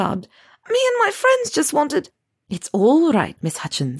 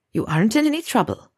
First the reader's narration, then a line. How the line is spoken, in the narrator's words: Minerva said, her voice carefully calm